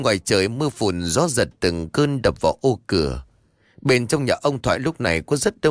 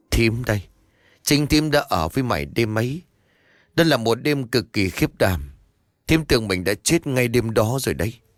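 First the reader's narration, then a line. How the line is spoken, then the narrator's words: Choked, tearful voice. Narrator (Vietnamese): Bà Hà đáp bằng một giọng nghẹn ngào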